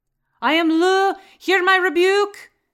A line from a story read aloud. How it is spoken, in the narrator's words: shouted